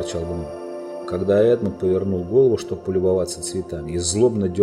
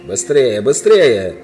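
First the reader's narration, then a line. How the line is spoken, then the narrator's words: Witch shouting. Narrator (Russian): кричала колдунья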